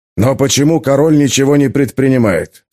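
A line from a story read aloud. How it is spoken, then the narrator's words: Plain. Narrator (Russian): спросил отец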